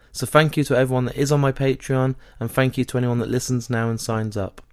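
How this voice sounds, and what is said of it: Strained, failing voice. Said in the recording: “my voice is going. I'm quite struggling at the moment. There's a annoying throat infection I've got”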